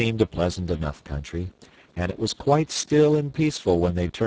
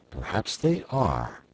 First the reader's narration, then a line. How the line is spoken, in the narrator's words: assented the wizard in a thoughtful tone of voice